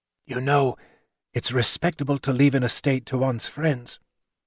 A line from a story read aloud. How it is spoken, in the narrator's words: he whispered to Reverend Reynolds